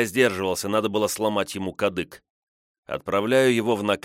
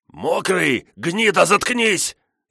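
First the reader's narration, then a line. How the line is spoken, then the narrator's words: Hoarse growl, throat injured. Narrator (Russian): рычит осипшим голосом тот, кто получил от меня в горло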